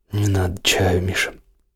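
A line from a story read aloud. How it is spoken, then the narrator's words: Hoarse reply. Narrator (Russian): ответила хрипло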